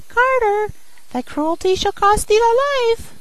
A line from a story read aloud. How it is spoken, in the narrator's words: the sparrow cried